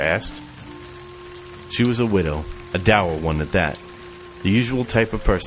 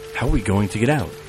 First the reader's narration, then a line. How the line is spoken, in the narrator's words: gasps and hushed comments